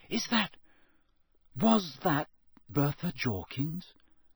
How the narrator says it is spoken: Harry whispered

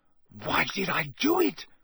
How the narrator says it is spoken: he said wildly

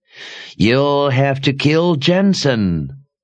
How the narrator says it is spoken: Sister Perdita shrieked

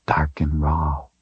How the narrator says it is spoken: she whispered

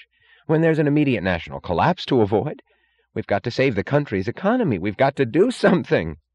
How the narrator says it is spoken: cried Wesley Mooch

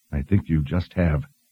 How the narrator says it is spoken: Richard murmured

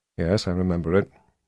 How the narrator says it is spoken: said in a dull voice

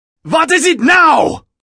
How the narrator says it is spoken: yelled Wolfgang over the roar of his advancing army

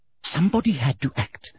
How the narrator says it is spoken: breathed Umbridge

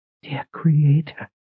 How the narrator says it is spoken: Sister Verna whispered, her eyes wide

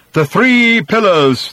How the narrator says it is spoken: thundered the man

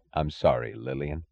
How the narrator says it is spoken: he said, his voice low, a voice of sincerity and of suffering

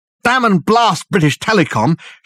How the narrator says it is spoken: shouted Dirk, the words coming easily from force of habit

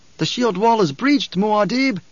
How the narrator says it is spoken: he shouted

